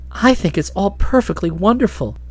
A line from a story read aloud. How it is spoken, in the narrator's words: she breathed